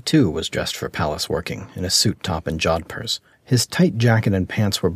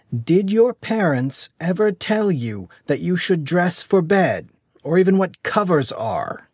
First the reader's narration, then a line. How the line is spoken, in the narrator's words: He shouted at Dizzy slowly, as if to an imbecile